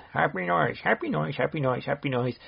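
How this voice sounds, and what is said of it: Funny put-on voice. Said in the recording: “a little voice for you ... you get a funny voice.”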